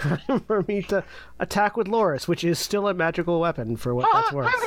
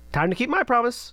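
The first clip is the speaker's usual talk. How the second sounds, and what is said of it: High-pitched squeaky helium-like voice. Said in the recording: “In my hasted voice ... That's like a Mickey Mouse voice or like a helium voice.”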